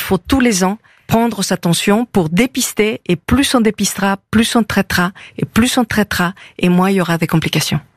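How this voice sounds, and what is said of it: Slight Mexican accent in French. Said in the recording (French): “Vous avez un petit accent d'Amérique du Sud, je crois. ... Amérique du Nord. ... Mexique.”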